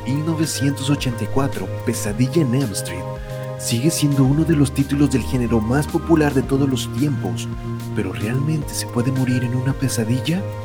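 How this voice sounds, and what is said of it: Put-on radio announcer voice. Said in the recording (Spanish): “voy a usar mi voz de locutor ... a leer como el, cine conector pero con voz de locutor”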